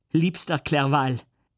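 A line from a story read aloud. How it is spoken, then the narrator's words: Calling out. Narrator (German): rief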